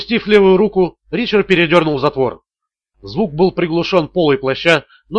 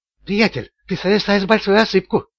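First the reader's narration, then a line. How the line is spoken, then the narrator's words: Whisper. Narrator (Russian): прошептал он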